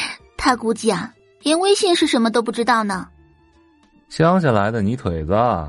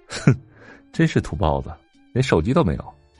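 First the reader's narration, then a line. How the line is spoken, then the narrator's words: Soft mocking chuckle. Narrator (Chinese): 边上立即有人轻笑出声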